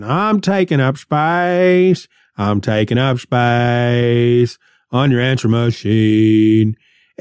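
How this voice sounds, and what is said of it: Sung line with a slight accent. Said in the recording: “he sang it like that. He did a little accent.”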